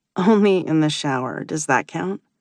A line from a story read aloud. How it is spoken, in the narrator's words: she chuckles